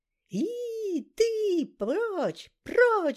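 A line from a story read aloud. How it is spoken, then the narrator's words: Woman shrieking as if hurt. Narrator (Russian): завопила тетка, словно ей прищемили палец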